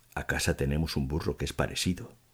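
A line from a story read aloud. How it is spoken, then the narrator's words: Quiet, swallowing hard, longing. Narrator (Spanish): dijo en voz baja y trasegando mucha saliva y mucha añoranza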